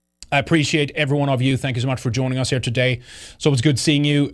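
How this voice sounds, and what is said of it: Strained, hoarse voice. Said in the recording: “losing my voice as well. I've been yapping too much today.”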